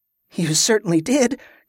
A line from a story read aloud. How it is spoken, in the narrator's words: Kerla said with a nervous laugh